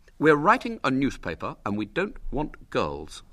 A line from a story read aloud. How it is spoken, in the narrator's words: said William firmly